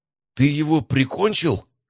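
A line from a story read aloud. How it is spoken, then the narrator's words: Hoarse-voiced question. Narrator (Russian): хриплым голосом поинтересовался Стас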